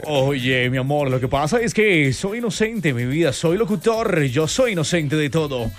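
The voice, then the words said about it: Put-on radio announcer voice. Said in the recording (Spanish): “sacamos nuestra voz de locutor.”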